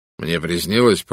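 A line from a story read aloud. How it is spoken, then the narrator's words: Grumbling. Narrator (Russian): проворчал он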